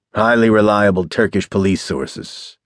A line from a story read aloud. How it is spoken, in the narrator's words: Slattery replied curtly